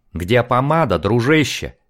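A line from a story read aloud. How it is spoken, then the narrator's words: Bark. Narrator (Russian): рявкнул Майк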